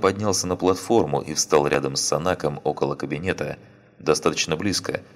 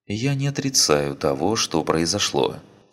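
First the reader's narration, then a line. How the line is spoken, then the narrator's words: Calm. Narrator (Russian): спокойно ответила Ария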